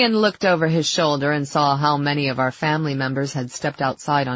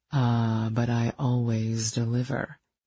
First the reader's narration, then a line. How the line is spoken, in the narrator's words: he purred